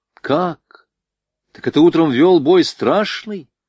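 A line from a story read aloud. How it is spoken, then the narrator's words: Astonished exclamation. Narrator (Russian): воскликнул пораженный Звонарев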